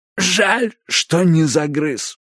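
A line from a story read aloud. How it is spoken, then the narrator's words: Creaky rasp. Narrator (Russian): проскрипела она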